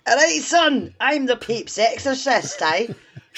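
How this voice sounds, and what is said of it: Put-on Irish accent. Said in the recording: “I hope his accent changes with each film ... he was Italian before, but from the fucking Ireland now”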